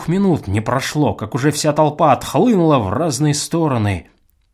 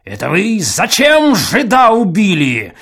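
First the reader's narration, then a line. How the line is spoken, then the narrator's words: Booming loud exclamation. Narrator (Russian): громогласно воскликнул Чертопханов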